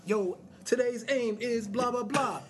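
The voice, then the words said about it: Mock rap like a teacher. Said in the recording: “sounded like you're in high school and your high school teacher comes in and tries to rap ... why you sound like a high school teacher?”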